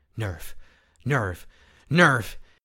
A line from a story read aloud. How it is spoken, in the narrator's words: he panted as he dashed along